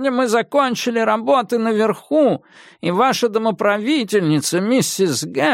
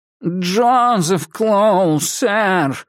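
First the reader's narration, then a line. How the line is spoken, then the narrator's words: Nasal whining voice. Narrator (Russian): сказал он гнусавым голосом с подвыванием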